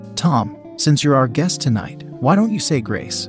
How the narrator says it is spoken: her father said

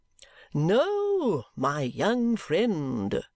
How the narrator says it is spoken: says Chadband smoothly

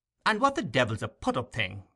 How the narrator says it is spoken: demanded the doctor impatiently

